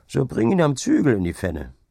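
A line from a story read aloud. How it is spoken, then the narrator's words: Laughing. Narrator (German): setzte Hauke lachend hinzu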